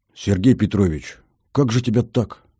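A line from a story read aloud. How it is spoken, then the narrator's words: Muttered. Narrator (Russian): пробормотал Витек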